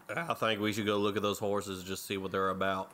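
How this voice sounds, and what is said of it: Put-on country twang. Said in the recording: “Oh my God, you have a country twang?”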